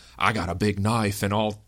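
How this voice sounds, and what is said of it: Decent put-on Australian accent. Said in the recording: “That was not a horrible Australian accent, I have to say.”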